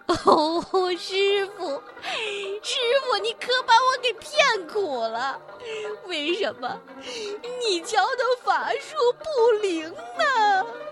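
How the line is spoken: Drawn-out crying wail. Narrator (Chinese): 他拉长了声音哭起来

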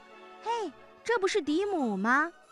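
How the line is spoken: Surprised call. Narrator (Chinese): 店员哥哥 一看到我就叫了

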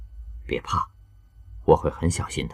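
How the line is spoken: Gentle coaxing. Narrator (Chinese): 在看到他拒绝后，羌然口气温柔地哄着他

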